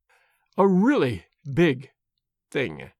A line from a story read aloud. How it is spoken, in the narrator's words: she said slowly and very gravely